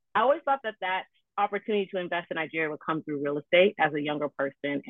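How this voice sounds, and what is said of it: American accent. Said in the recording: “don't let the accent fool you. I'm a Nigerian. ... Clearly, I was born and raised in the U.S.”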